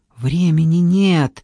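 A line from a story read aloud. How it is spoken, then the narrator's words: Hiss. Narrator (Russian): прошипел Джордан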